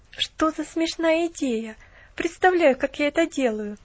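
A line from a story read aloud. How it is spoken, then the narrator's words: Laughing. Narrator (Russian): засмеялась девушка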